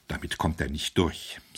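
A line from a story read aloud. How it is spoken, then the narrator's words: Quiet speech. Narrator (German): sagte leise der Arzt zum Priester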